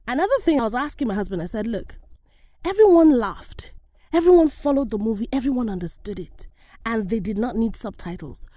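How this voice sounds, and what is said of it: African-accented English. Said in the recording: “my accent is a problem ... You sound tropical.”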